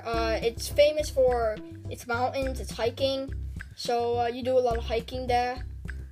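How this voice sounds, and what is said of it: Put-on British accent. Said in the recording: “I'm speaking in British accent.”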